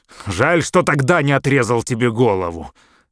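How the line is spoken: Loud American man. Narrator (Russian): громко сказал американец

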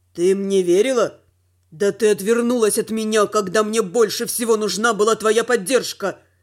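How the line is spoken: Dragon's angry growl. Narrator (Russian): прорычал дракон

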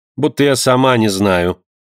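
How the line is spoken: Calm. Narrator (Russian): спокойно промолвила Вероника

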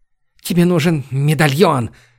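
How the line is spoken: Breathless decisive female voice. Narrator (Russian): Выдохнула она, словно решившись на что-то важное

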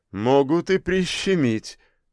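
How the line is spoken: Laughing. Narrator (Russian): рассмеялся он

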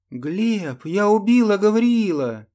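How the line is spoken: Joyful shout. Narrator (Russian): радостно выкрикнула она

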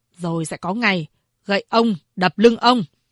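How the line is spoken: Cold. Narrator (Vietnamese): Lỗ Lập Nhân lạnh lùng nói

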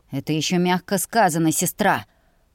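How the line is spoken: Growl. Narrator (Russian): прорычал Ульви

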